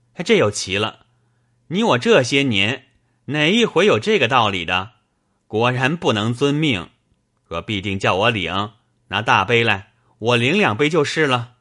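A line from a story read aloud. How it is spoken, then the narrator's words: Laughing. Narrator (Chinese): 冯子英笑道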